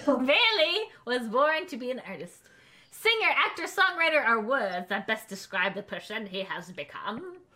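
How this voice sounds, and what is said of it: Put-on part British, part pirate accent. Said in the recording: “I'm very confused about your accent. ... It's like part British, part pirate.”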